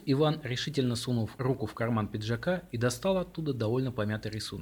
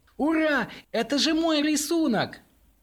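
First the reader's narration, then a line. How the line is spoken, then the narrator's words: Triumphant yell. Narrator (Russian): торжествующе завопила Ульяна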